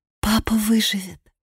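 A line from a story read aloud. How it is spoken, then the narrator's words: Whispered. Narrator (Russian): прошептала она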